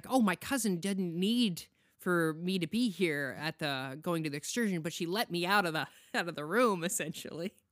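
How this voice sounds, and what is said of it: Imitated excited female character voice. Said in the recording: “it's disturbing how much you sound like her ... purposely put on a voice ... I was doing her”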